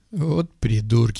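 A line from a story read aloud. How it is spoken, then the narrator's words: Snort. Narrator (Russian): хмыкнул парень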